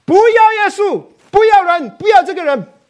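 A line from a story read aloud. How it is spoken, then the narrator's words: Shouting. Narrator (Chinese): 喊着说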